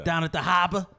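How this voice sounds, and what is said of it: Mock Boston accent. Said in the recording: “I would never talk like that. ... What a ugly accent.”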